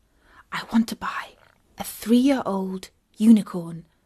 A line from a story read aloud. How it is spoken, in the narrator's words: Katie whispered to it